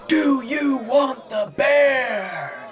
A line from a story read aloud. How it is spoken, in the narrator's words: They howled like the damned